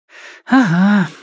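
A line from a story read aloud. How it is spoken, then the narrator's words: Sighed. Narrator (Russian): вздохнула Софья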